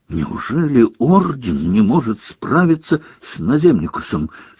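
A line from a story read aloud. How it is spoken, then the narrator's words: Furious whisper. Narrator (Russian): спрашивал он друзей яростным шепотом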